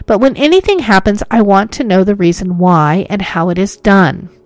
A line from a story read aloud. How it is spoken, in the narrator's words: cried Hoyt angrily